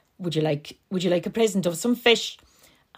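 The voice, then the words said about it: Put-on Connemara Irish accent, old man. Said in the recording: “I'm not going to even try my Connemara Cleggan accent. ... That sounds a bit like an old fella voice.”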